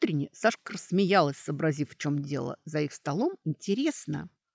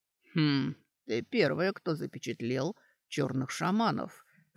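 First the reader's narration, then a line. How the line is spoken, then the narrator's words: Muttered. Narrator (Russian): пробормотал Доран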